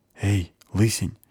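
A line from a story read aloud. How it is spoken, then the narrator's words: Whisper. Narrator (Russian): прошептал табакси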